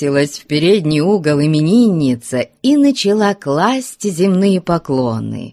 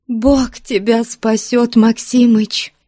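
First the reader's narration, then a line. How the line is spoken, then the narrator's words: Sobbing speech. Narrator (Russian): сказала она, всхлипывая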